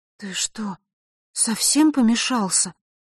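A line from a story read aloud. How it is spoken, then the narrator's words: Bewildered. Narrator (Russian): растерянно произнесла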